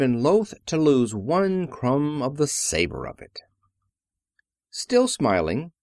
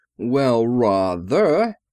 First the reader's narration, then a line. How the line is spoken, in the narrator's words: he drawled